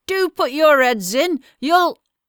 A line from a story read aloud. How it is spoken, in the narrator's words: called out